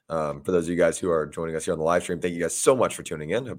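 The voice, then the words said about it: Hoarse, strained voice. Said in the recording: “my voice is absolutely shot today because I was at the game yesterday”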